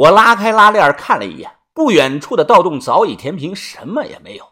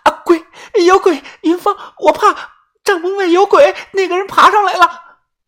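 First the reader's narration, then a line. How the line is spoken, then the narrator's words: Panting, loud. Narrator (Chinese): 小轩突然醒了，喘着气，大声的说道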